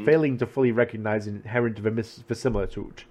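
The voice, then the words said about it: Made-up foreign-sounding accent. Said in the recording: “I'm just gone to accent here. It's not even from any country, it's just accent.”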